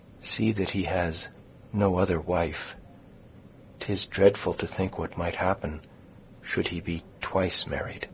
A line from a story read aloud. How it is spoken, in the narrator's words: continued, dropping her voice to a whisper